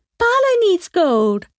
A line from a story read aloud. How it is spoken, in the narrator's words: shouted Tashi